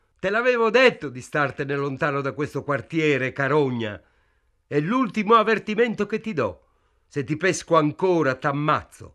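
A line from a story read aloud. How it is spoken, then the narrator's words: Policeman shouting. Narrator (Italian): il poliziotto gridò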